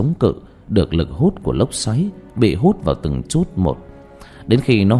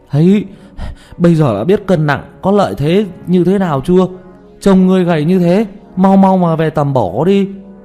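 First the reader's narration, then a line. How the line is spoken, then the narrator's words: Panting, smug. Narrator (Vietnamese): Tiểu Mã thở hổn hển, đắc ý nói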